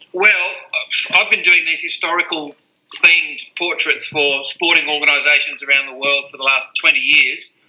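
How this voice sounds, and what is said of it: Australian accent. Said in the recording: “as you can hear by my accent, I'm based in Australia.”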